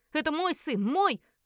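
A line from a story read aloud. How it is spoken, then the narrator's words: Hysterical angry shout. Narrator (Russian): кричала истерично моя супруга, и лицо ее покраснело от гнева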